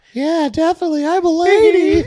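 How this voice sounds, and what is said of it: Man doing a high girl voice. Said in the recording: “this is how you do girl voice. As a guy. ... you sound just like her ... How do you have the vocal register to be a woman?”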